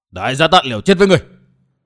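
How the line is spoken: Assassin's fierce shout. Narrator (Vietnamese): Tên đại sát thủ quát

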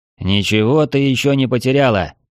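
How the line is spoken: Barked reply. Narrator (Russian): рявкнул в ответ

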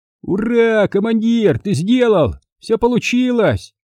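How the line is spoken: Toad shouting excitedly. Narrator (Russian): восторженно закричал жаба

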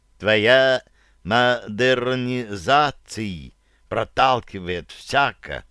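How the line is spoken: Drawled syllable by syllable. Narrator (Russian): протянул он словечко по слогам

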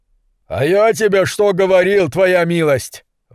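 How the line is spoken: Ecstatic yell. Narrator (Russian): в восторге завопил предатель Сэм

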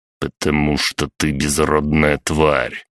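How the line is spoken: Through gritted teeth. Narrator (Russian): процедил Николай

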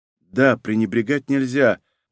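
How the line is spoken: Muttered. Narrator (Russian): пробормотала Унги

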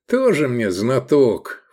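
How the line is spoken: Scoffing snort. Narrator (Russian): фыркнул Искандер

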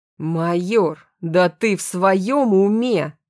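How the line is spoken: Growling general. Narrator (Russian): зарычал генерал

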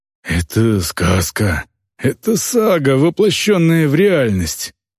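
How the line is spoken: Breathed out. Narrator (Russian): выдохнул Сайват

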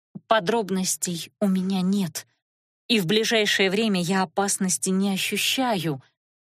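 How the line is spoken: Strained, forced out. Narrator (Russian): выдавила она

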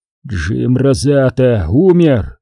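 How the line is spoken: Growl. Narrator (Russian): прорычал Теллоу

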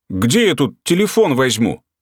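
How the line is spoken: Angry retort. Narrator (Russian): Так же сердито парировал арестованный

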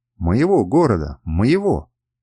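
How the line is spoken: Laughing uncontrollably. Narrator (Russian): Я заливался хохотом

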